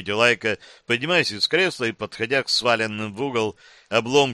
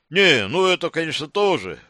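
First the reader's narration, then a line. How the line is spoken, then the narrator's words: Short laugh. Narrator (Russian): хохотнул Лайка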